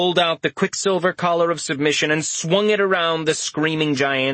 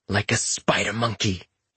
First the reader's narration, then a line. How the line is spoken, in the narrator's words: whispered with a smile